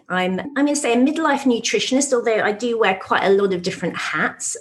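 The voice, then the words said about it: British accent. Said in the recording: “you can probably tell by the British accent that I'm not in the States”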